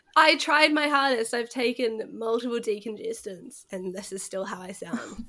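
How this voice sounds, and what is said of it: Sick, congested voice. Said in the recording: “Yeah, you sound sick. ... That's why my voice sounds like this.”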